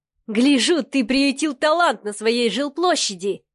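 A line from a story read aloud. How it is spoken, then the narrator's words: Laughing. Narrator (Russian): хохотал Миха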